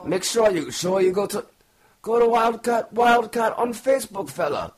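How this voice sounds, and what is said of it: Bad put-on Irish accent. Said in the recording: “That was a horrible Irish accent. ... That was so bad. My horrible accent.”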